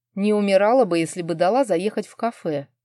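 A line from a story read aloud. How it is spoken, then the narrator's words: Good-natured snort. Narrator (Russian): беззлобно хмыкнул Бек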